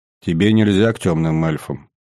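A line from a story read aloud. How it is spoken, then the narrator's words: Heavy sigh. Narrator (Russian): тяжело вздохнув, произнес Ридлиан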